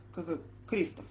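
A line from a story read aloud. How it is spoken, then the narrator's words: Stunned mutter. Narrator (Russian): Ошарашенно пробормотал он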